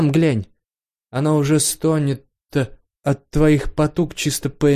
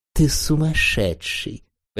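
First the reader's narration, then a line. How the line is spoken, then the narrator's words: Whisper after emotional surge. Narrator (Russian): прошептала отошедшая от наплыва чувств Ирен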